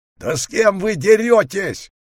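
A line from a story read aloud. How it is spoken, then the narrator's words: Astonished yell, large wolf. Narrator (Russian): завопил изумленный большой волк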